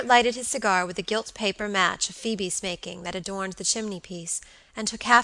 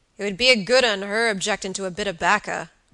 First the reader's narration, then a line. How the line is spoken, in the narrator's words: growled Mr